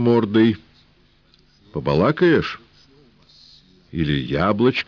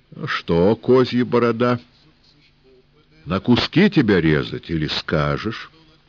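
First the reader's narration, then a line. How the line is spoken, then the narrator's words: Calm, steady. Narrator (Russian): сказал спокойно, без дрожи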